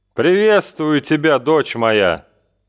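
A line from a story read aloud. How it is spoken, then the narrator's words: Dull flat rider. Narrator (Russian): глухо и невыразительно произнес всадник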